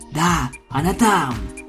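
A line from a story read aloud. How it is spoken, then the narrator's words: Whispering unicorn. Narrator (Russian): шепнул первый единорог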